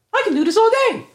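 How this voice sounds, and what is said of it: Cartoonish Italian Mario-style voice. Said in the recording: “I wish Captain America would have did a Mario voice ... Look at me, it's Mario.”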